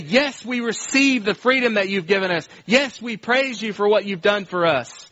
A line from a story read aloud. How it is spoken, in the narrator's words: shout back and say